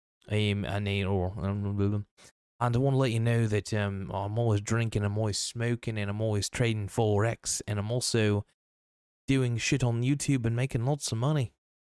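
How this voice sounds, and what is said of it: Poor imitation British accent. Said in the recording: “my completely legitimate, British accent ... that's a poor British accent”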